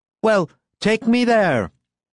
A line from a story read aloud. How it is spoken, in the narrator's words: cried Lucian in a shrill voice